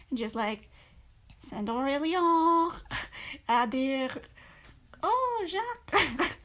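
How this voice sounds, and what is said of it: Bad put-on French accent. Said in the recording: “my terrible French impression ... my terrible French pronunciation”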